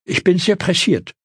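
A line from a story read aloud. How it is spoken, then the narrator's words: Hasty call. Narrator (German): rief ihm dieser hastig entgegen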